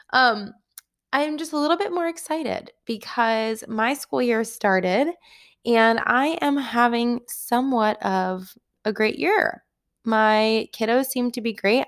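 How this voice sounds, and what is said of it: Hoarse, fading voice. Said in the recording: “aside from the fact that I'm losing my voice”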